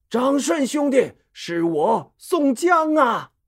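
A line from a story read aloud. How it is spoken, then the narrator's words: Hurried loud call. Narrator (Chinese): 他连忙大声叫道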